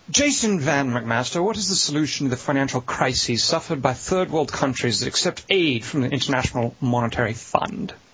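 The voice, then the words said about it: Put-on English accent. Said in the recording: “ask you a question in an English accent”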